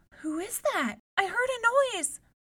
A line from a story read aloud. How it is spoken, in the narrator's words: she cried